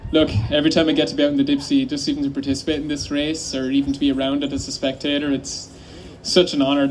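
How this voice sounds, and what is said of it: A notable accent. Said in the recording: “he has the best accent”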